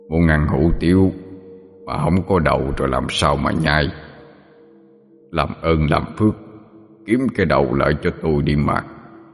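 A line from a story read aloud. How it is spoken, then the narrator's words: Headless demon's deep throaty voice. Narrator (Vietnamese): con quỷ đó, tuy không có đầu nhưng vẫn phát ra tiếng nói ồm ồm trong cổ họng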